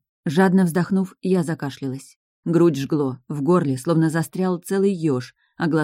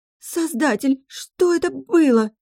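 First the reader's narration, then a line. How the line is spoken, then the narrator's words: Shrieked. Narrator (Russian): взвизгнула Глория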